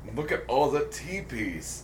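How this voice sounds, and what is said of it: Put-on Japanese accent. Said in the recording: “they're Japanese ... I'm doing the accent.”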